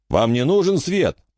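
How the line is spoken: Distant shout. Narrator (Russian): прокричал Стентон из грузовика

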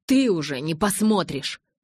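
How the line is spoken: Barked. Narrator (Russian): рявкнул я

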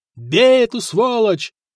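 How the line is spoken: Leader yelling. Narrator (Russian): орал вожак

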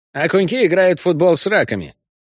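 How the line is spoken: Cheerful report. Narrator (Russian): бодро доложила Десна

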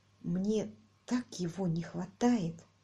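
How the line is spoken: Whisper. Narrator (Russian): прошептала Мэри

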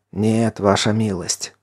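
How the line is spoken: Hoarse wheeze. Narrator (Russian): прохрипел Ян

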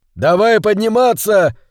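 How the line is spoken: Shouted. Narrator (Russian): крикнул Хилала

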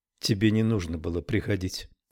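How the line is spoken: Said quietly. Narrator (Russian): тихо сказала Джобет

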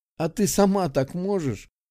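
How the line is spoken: Good-natured laugh. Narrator (Russian): беззлобно рассмеялась Роженова

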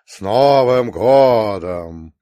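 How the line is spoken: Booming bass voice. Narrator (Russian): сказал гулким басом

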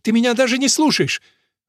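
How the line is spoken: Exclaiming. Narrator (Russian): девушка не воскликнула

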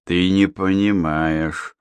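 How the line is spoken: Muttering. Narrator (Russian): пробормотал я

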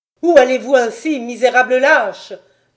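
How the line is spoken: Inhuman, far-carrying shout. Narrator (French): leur cria-t-il d'une voix qui n'avait plus rien d'humain et qui se fit entendre à l'autre bout de la place Saint-Mathieu

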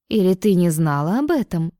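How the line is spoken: Distrustful question. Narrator (Russian): переспросила недоверчивым тоном

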